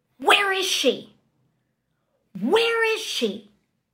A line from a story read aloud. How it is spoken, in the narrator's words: I just start to hear these yells of